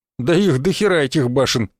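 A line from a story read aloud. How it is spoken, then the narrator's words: Snorting. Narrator (Russian): хмыкнул я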